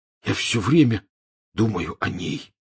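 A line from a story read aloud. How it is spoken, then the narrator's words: Hoarse. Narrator (Russian): хрипло сообщил Рон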